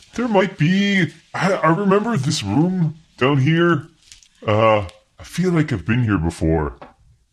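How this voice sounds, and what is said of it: Put-on Canadian accent. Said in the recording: “Henry says room, unlike Dan, who says room ... Because he's Canadian ... He's fantasy Canadian ... He's a better Canadian accent”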